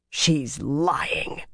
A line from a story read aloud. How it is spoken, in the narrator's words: Megdin growled